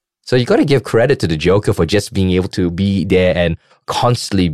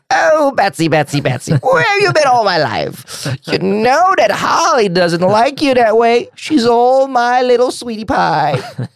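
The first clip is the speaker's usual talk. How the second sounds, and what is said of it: Joker character voice. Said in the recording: “your Joker impression.”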